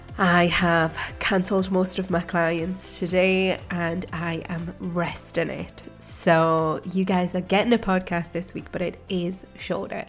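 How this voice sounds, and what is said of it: Hoarse, strained, fading voice. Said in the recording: “it goes straight to my throat and I end up starting to lose my voice.”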